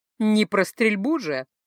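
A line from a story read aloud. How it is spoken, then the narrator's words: Laughing. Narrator (Russian): она вновь хохотнула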